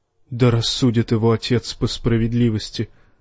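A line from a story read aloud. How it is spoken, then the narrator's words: Muttered. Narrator (Russian): пробормотал странствующий Септон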